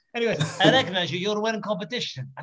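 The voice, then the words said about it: Put-on Russian accent. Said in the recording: “that accent is unreal ... they're like, oh my god, have they got another guy on the show? ... They got another Russian guy. No, it's just me.”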